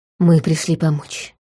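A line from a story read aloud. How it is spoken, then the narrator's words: Soft rustling whisper. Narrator (Russian): тихо прошелестела она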